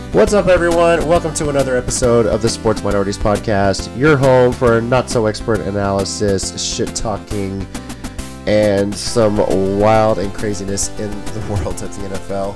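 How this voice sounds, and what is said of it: Slightly off, unwell-sounding voice. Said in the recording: “my voice sounds weird, it's because I'm dealing with something, but it's sounding a little better”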